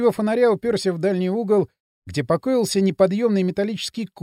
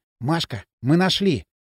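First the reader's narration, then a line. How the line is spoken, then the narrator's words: Excited whisper. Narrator (Russian): прошептал Кирилл, немного волнуясь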